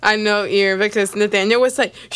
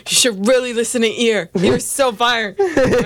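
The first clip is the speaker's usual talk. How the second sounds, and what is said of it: Imitates another person's voice. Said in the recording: “Good Nathaniel impression.”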